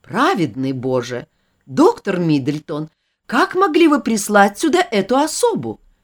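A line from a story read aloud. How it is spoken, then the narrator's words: Exclamation. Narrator (Russian): воскликнула мистрис Изи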